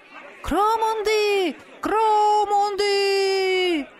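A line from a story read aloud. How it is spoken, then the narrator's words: Crowd yelling. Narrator (Russian): завопили люди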